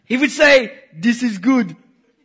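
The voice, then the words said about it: Put-on African accent. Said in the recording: “my best African folklore impersonation.”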